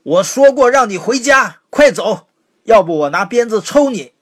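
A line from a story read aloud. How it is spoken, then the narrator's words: Angry shout. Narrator (Chinese): 冲他吼道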